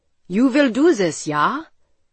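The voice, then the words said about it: Heavy European accent. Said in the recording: “With a heavy European accent, a tall, bearded man told me he loved me and was proud of me.”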